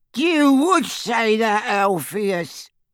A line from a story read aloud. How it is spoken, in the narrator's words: cackled Auntie Muriel